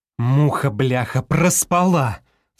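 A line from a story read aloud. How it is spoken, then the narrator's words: Startled cry. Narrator (Russian): вскрикнула Галкина, глянув на время в телефоне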